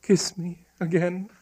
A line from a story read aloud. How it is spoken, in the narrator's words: whispered Hypatia